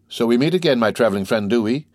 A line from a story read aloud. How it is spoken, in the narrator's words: cried the Countess